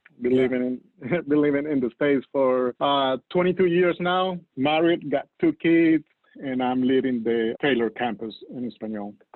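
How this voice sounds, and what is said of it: Colombian Spanish accent. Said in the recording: “You can guess it because of my accent. I'm not from the United States. I'm from Colombia, South America”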